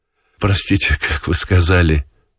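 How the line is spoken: Sudden attentive question. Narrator (Russian): спросил вдруг внимательно Желтков

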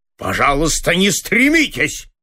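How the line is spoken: Angry interruption. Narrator (Russian): зло прервал его директор

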